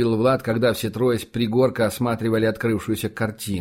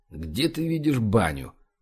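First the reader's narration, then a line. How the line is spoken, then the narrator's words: Grumbling mutter. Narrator (Russian): буркнул церковник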